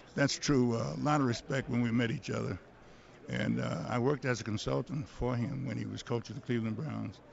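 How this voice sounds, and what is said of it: Voice slightly affected by a cold. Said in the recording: “I have a little cold”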